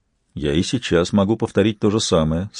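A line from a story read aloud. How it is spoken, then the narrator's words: Calm. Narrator (Russian): спокойно сказал Вингельд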